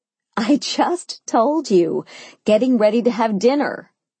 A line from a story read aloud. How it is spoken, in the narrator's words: I laughed